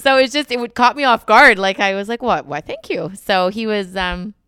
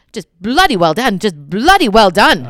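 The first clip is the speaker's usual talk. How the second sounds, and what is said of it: Attempted English accent imitating Prince Charles. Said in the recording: “he said, "You won the Olympics," in his English accent, which I don't have ... Oh, that's really hard.”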